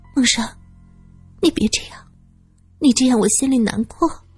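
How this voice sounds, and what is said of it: Soft pleading whisper. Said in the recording (Chinese): “小声的哀求着”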